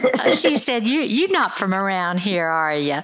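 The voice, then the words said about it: Put-on Southern accent. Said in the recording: “you sound pretty much like she was. I mean, she was a Southern woman, and she said with a Southern accent”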